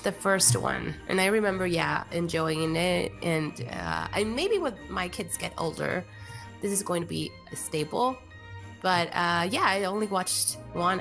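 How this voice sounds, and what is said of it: Raspy voice. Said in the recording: “Excuse my raspy voice, everyone. I have a cold.”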